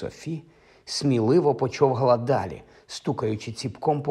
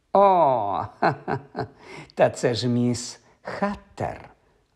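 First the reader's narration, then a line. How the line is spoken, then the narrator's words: Witch laughing. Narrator (Ukrainian): розсміялася відьма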